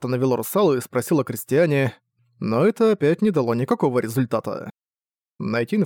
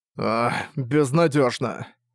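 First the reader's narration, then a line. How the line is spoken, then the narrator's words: Sighing. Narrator (Russian): Арк вздохнул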